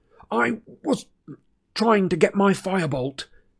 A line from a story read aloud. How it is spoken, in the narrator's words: Harry croaked